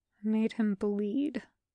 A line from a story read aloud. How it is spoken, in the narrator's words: he says quietly